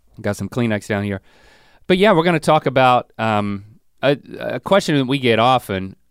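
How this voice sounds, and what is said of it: Congested voice from a cold. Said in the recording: “I got a cold. Like I'm three days into this thing.”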